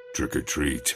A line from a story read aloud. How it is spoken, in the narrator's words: he said in a deep voice